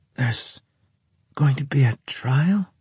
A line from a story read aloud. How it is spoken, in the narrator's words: Natasha asked weakly